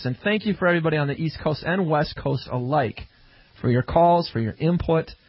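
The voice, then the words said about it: Regional American accent. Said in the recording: “Can't you tell by my accent we're in Central Time?”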